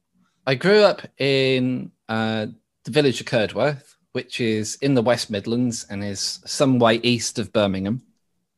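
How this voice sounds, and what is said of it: English regional accent. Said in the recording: “What part of England are you from?... where does this accent come from? Because I'm aware there's different accents over there”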